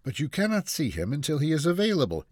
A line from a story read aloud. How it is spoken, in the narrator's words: the receptionist replied calmly